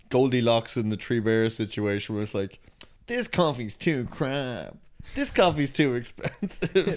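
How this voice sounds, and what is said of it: Imitates another person's voice. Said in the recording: “That's a really good Devoy impression, by the way. You absolutely nailed it.”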